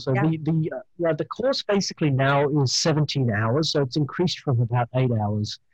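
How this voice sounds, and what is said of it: Australian accent. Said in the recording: “my beautiful Australian accent”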